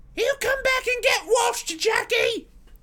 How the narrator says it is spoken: shouted

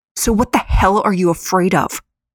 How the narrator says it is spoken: Samara hissed at him

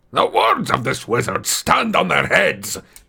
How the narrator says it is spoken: he growled

